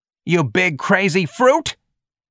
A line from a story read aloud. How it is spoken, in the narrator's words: George snarled more loudly